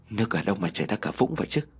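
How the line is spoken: Trembling voice. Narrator (Vietnamese): Nam đáp được bằng giọng run rẩy

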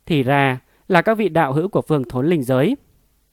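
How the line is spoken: Raised voice. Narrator (Vietnamese): cao giọng hỏi

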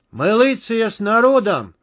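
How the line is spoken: Crowd yelling. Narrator (Russian): заорали митингующие

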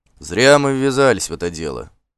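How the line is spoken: Furtive grumbling. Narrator (Russian): ворчал украдкой Бьорн

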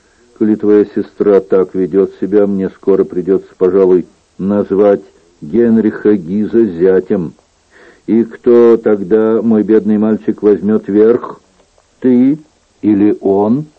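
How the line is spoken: Monotonous dull female voice. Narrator (Russian): Она сказала своим однообразным тусклым голосом

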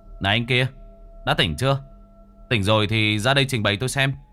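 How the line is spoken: Loud. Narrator (Vietnamese): Báu to tiếng

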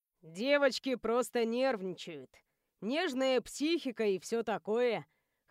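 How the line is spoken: Chuckling. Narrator (Russian): хохотнул Цироп

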